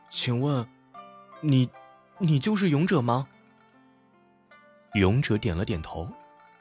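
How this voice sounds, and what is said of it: Soft, quiet questioning voice. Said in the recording (Chinese): “小声的问道”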